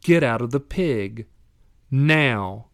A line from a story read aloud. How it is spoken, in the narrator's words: Valiente calmly but firmly said